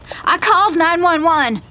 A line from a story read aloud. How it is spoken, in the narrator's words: I shout